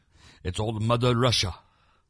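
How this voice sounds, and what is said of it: Put-on Russian accent. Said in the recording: “That's my Russian accent.”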